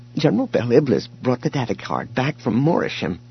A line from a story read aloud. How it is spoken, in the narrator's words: Kent said, his voice trembling now, too